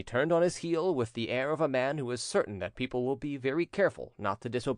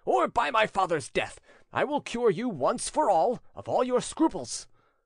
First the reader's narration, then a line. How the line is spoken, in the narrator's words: cried the prince, stamping his foot furiously